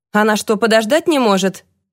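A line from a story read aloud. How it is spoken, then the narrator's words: Grumbled. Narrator (Russian): проворчал он своему секретарю Джойс Уитерс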